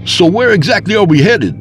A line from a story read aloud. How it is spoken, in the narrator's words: I asked over the roar of the wind through the open window